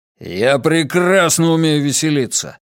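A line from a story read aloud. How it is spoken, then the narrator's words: Growl. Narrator (Russian): рыкнул Матиас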